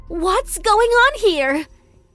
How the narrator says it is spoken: she screamed angrily

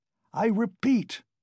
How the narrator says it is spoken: Raskolnikov cried furiously

